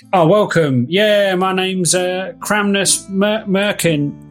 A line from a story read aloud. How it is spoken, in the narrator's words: a diminutive little young dwarf covered in soot who's pumping away at some bellows as he's like